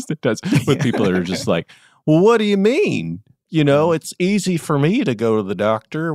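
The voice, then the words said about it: Southern US accent. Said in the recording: “sorry to use the Southern accent. ... I think it just happens naturally. We're both Southern”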